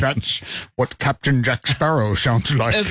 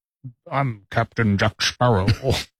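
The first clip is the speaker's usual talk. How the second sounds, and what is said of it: Imitates another person's voice. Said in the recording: “Why do you sound like you're doing a Sean Connery impersonation?”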